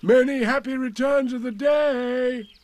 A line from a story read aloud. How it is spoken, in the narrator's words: called out Pooh